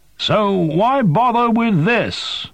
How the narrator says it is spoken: Zilla shouted

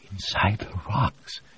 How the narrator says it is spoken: Joanna said, her voice a reverent whisper

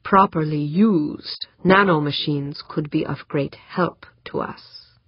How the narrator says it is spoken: the black man said slowly

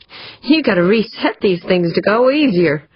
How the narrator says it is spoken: gasped

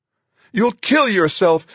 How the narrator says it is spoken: Marguerite shrieked

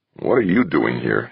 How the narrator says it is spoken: He asked, almost in a growl

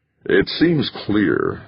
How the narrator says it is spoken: Halverson said slowly

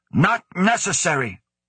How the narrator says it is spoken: snapped

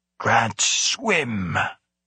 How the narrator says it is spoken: the gorilla rasped, like fish

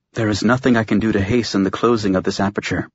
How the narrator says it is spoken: she murmured

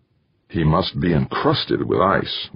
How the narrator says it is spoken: Wanamaker muttered

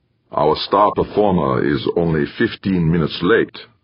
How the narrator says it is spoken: said Fritz stiffly

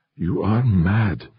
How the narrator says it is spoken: Urbain whispered

